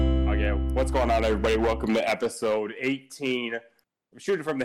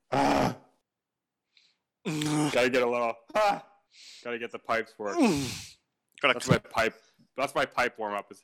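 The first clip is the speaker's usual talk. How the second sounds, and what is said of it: Growly ogre-like vocal warm-up. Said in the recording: “You sound like an ogre in heat.”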